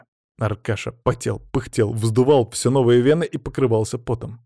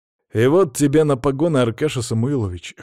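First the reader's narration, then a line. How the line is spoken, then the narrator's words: Smirking grunt. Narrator (Russian): хмыкнул я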